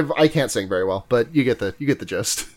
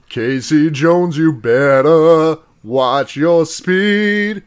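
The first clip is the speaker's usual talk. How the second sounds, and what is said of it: Operatic baritone bass singing. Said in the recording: “my best impression of like an opera, like baritone bass ... in that register ... Pavarotti voice”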